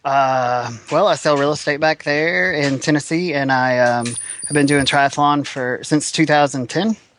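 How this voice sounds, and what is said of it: Tennessee American accent. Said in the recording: “What's the accent, mate? ... I'm from Nashville, Tennessee.”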